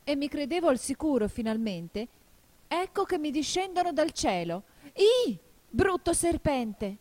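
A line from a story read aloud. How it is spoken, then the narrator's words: Desperate cry. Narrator (Italian): continuò il colombo con un grido disperato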